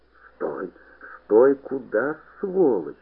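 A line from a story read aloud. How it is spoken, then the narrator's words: Hoarse rasp. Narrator (Russian): хрипел Подуст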